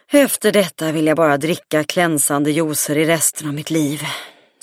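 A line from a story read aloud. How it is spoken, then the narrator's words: Sighed. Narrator (Swedish): suckade Alle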